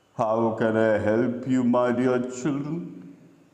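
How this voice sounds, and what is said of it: Strange mechanical unearthly voice. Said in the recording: “in a strange mechanical voice. It struck their ears as unearthly.”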